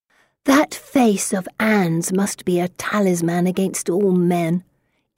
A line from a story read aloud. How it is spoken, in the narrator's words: Elizabeth whispers just loud enough to be heard